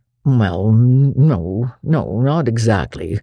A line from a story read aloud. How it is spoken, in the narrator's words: said Matthew uneasily